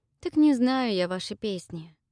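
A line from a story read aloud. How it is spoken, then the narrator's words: Sighing. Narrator (Russian): вздохнула я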